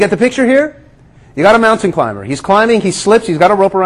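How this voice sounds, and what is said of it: Usual voice. Nothing is said of it.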